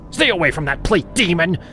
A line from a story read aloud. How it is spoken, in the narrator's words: She barked at me